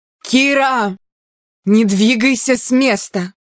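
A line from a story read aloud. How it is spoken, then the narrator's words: Strangled shout. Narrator (Russian): Распростертый на земле, Аарон сдавленно крикнул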